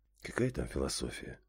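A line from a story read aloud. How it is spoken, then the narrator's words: Sigh. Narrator (Russian): вздохнул я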